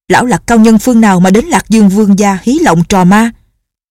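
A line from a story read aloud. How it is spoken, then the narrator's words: Shouting. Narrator (Vietnamese): Vương Trọng Cường quát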